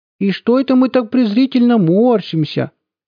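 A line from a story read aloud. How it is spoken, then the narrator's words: Sudden squeaky baby-talk voice. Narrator (Russian): сюсюкающим голоском вдруг пропищал Хохошуткин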